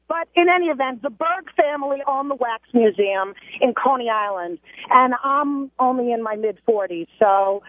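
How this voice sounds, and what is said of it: Strong Brooklyn accent. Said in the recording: “I grew up in Brooklyn. Obviously, my accent is still from there ... In your case, the word accent should be spelled with A-X-E ... You're worse than me.”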